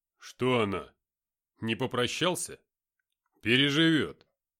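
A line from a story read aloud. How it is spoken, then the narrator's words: Rough speech. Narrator (Russian): грубо сказал Артем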